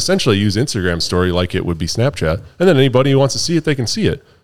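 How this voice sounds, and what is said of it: Usual voice. Nothing is said of it.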